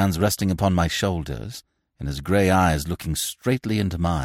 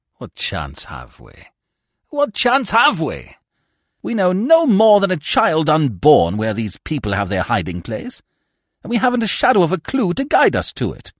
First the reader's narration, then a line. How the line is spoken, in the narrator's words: I interrupted bitterly